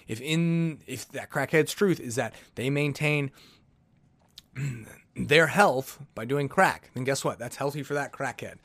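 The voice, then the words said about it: Sarcastic tone. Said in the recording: “I'm obviously being sarcastic here.”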